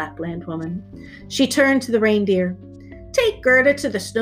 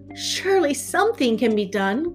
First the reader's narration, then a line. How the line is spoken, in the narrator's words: cried Gerda